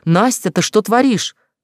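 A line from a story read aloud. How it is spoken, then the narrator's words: Throat-straining shout. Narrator (Russian): прокричала, срывая горло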